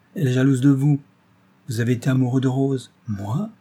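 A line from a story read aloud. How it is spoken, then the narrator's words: Embarrassed exclamation. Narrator (French): s'écria Marcel en rougissant comme un écolier surpris dans la lecture de son premier roman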